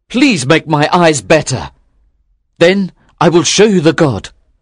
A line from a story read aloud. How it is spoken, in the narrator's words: cried